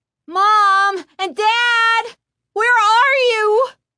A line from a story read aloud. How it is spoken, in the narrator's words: She cried aloud